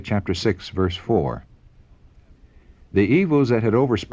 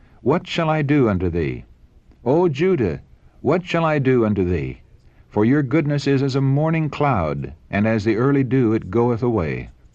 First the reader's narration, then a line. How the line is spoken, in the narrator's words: he cried